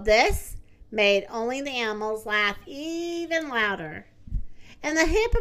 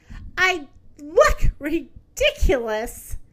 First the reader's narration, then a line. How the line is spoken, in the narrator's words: she cried out upon seeing her reflection